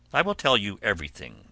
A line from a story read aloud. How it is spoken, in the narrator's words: answered Ulysses